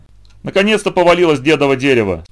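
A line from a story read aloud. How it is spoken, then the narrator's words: Old woman, laughing loudly. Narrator (Russian): сказала бабка и опять захохотала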